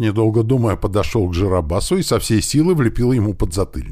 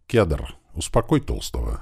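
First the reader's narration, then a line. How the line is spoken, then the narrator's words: Quiet. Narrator (Russian): негромко сказал я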